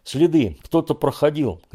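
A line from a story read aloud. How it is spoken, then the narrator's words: Shout. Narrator (Russian): крикнул Федя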